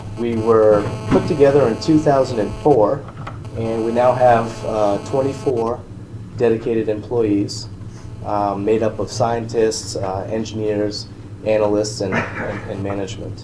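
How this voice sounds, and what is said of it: Strained, unwell voice. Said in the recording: “I apologize for my voice. I'm on the mend... I might have to take a pause”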